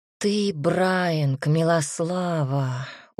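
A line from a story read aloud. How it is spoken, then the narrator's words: Tired. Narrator (Russian): устало сказал Макс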